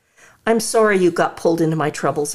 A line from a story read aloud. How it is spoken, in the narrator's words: I sigh